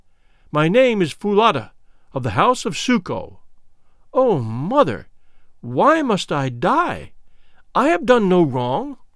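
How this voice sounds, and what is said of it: Trembling, frightened voice. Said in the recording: “answered the girl in trembling accents”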